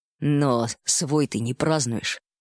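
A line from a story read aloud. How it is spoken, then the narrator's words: Half-offended grumble. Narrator (Russian): полуобиженно буркнула медведица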